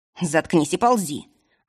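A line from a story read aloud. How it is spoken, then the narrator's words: Snapping retort. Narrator (Russian): огрызнулся на него студент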